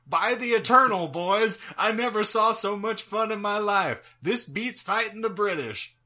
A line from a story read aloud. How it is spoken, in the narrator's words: Jackson exclaimed